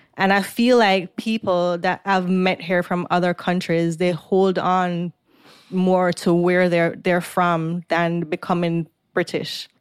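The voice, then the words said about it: Jamaican accent with American traces. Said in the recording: “my Jamaican accent came back... I can hear it... a lot of people now say that I sound more Jamaican than American”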